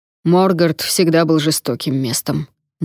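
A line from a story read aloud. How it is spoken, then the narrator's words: Gloomy. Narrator (Russian): мрачно сказал сэр Радомир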